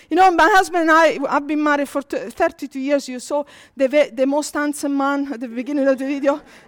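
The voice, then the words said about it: Mixed Italian, Spanish, Scottish accent. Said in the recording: “He's from Scotland, so if you hear the accent, it's his fault. So there is a mixture of Italian, Spanish, and Scottish.”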